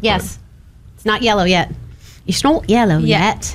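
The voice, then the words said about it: Put-on British accent. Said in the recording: “I got the British accent.”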